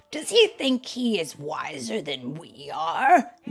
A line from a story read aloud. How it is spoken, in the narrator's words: They grumbled to one another